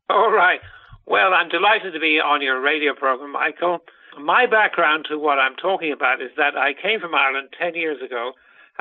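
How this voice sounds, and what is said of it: Distinctive Irish-sounding accent. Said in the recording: “He has a very funny accent”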